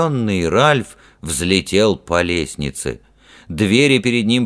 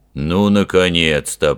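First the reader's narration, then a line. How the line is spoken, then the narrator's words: Deep bass voice. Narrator (Russian): пробасил толстяк капитан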